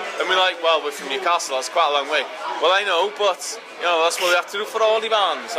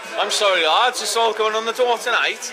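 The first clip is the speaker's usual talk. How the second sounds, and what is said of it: Put-on Welsh accent. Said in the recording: “I'll carry on with my Welsh accent.”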